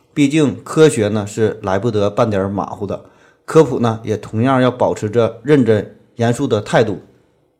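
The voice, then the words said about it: Regional accent, imprecise pronunciation. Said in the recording (Chinese): “由于我本人这个口音的问题，导致发音不准”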